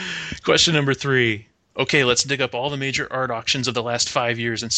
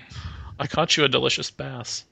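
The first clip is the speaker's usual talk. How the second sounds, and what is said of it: Napoleon Dynamite impression. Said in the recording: “It's a pretty good impression.”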